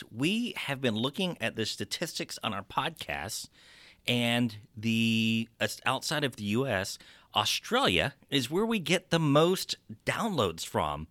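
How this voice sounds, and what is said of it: Texas accent. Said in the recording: “you probably make fun of my Texas accent”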